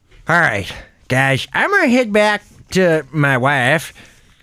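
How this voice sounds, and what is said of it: Imitates another person's voice. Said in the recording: “my Borat impersonation”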